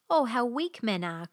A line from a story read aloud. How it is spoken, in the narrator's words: cried the king